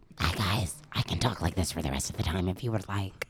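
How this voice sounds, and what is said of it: Extremely weird put-on voice. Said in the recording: “doing this extremely weird voice.”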